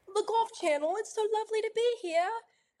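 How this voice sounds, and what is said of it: Put-on British accent. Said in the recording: “Does that sound like Cara Banks ... speaking in British accent”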